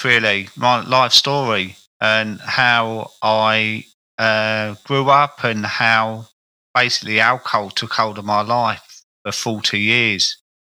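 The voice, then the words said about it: South London accent. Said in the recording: “you can tell by my accent, I was a South London character... I'm like an old market boy”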